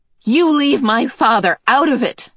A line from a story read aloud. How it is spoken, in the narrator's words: Meg shouted